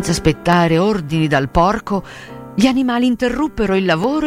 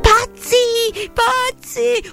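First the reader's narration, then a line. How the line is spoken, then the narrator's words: Yell. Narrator (Italian): urlò Benjamin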